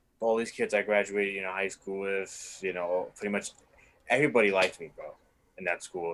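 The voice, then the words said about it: New York City accent. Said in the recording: “my New York accent”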